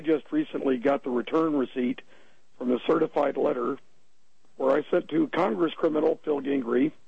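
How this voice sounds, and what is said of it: Ragged, hoarse voice. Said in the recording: “my voice is a bit ragged.”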